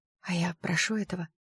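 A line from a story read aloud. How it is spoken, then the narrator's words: Trembling whisper. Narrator (Russian): прошептала я, чувствуя, как по рукам пробегает дрожь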